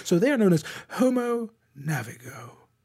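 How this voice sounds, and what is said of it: David Attenborough impression. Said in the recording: “my best impression of Sir David Attenborough”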